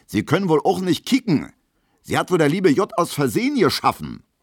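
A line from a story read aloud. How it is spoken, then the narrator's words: Screamed. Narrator (German): schreit Gustav Schmelo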